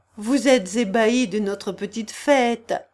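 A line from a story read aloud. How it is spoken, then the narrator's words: Said laughing. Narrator (French): dit en riant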